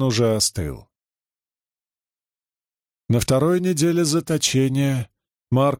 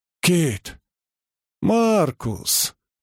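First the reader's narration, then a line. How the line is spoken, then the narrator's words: Joyful greeting. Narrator (Russian): радостно приветствовал актер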